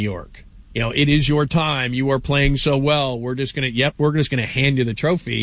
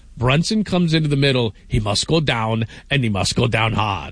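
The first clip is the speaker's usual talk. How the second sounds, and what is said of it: Impression of the Drago character. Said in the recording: “that was a terrible impression ... like Drago”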